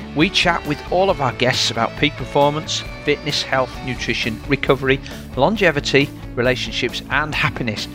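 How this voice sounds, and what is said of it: Yorkshire accent. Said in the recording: “you'll always hear a Yorkshire accent”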